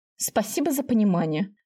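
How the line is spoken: Grumbling mutter. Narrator (Russian): ворчливо буркнула она

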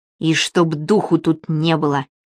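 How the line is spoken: Indistinct whisper to herself. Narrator (Russian): невнятно шептала она себе под нос

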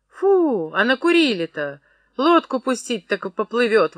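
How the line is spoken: Exclamation. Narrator (Russian): воскликнула она

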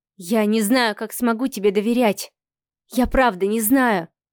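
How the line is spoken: Young woman, trembling voice. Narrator (Russian): дрогнувшим голосом произнесла девушка

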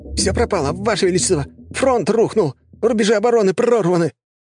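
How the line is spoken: Panicked squealing. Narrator (Russian): мокрый от пота посыльный визжать

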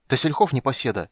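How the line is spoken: Angry self-talk. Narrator (Russian): сердито сказал он себе

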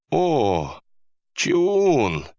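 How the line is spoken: Tender, affectionate. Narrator (Russian): произнес охранник ласково

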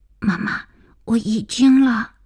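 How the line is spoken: Hurried frightened small voice, child. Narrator (Chinese): 儿子急促惶恐的小声

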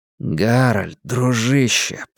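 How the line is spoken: Muttering. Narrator (Russian): пробормотал Ларри

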